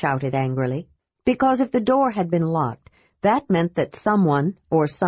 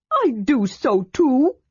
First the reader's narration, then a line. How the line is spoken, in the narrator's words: Tass said indignantly